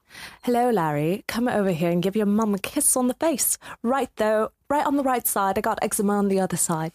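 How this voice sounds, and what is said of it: Put-on British accent. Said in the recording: “English. ... British. ... That was okay. Good. Excellent. ... That one was an easy, like, simple Cheers. Accent”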